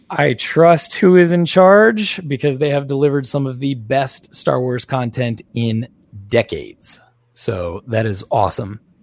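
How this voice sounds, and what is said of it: Tired, worn-out voice. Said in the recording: “I'm spent, as you can clearly hear in my voice. It's starting to get a little bit tired.”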